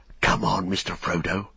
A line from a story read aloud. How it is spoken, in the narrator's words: he whispered